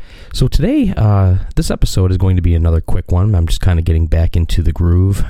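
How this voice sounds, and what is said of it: Quiet voice, still affected by illness. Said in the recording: “I'm talking a little bit quieter ... the last couple weeks I've been sick, and you can still probably hear my voice is still affected from it”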